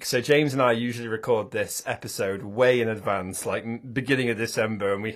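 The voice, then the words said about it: Hoarse, sick-sounding voice. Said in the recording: “I've been ill with flu for the past week, and you can probably still hear it in my voice. I've got a bad throat as well.”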